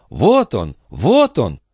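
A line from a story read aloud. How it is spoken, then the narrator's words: Exclamation. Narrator (Russian): она воскликнула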